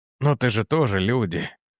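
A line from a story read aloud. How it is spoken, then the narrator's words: Weary sigh. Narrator (Russian): вздохнул он, слыша это уже не в первый раз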